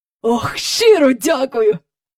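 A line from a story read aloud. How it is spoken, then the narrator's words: Joyful cry. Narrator (Ukrainian): радісно скрикнув доглядач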